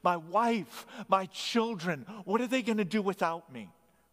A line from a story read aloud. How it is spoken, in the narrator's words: the last man's name, who cried out in desperation